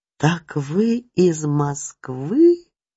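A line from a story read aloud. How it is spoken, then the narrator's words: Astonished drawl. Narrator (Russian): пораженно протянула Ксюта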